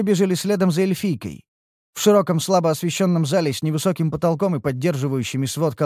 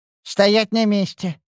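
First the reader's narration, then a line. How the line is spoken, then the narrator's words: Lisping man, missing teeth. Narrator (Russian): проговорил шепелява тип с выбитыми передними зубами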